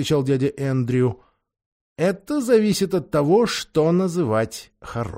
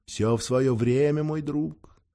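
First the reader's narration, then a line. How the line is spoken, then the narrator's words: Plain. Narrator (Russian): сказал дядя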